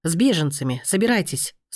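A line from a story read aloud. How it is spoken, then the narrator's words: Stern command. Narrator (Russian): строго приказал он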